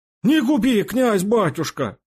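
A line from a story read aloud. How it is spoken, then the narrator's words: Hoarse wheeze, repeated. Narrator (Russian): еще раз просипел Фома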